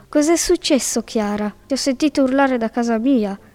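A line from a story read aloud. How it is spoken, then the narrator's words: Woodpecker exclaiming. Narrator (Italian): esclamò il picchio ciuffetto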